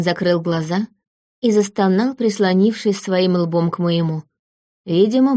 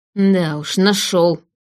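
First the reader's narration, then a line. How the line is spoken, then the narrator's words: Hiss. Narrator (Russian): прошипел он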